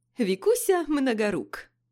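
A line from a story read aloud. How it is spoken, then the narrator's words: Laughing. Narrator (Russian): засмеялся Филипп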